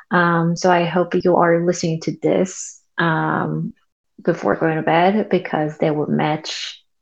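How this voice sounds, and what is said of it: Soft, quiet voice. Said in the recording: “my voice is kind of soft and a little quiet because it's nighttime here”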